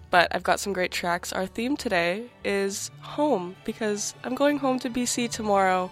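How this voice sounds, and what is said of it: Sick-sounding voice. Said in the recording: “As you might hear in my voice, I'm a little sick”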